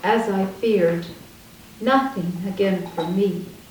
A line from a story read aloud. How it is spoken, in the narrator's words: King John said grimly